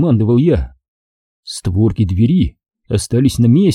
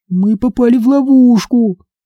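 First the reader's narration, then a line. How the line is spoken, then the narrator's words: Thin little voice. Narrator (Russian): констатировала Либи тоненьким голоском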